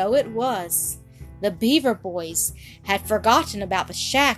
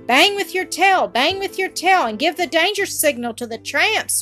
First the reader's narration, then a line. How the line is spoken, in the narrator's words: cried